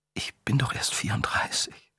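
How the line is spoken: Quiet. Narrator (German): sagte Charlotte leise

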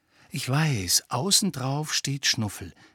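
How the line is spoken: Whispered. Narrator (German): setzte er flüsternd hinzu

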